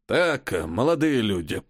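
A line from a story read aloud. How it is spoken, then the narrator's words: Creaky voice. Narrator (Russian): проскрипел он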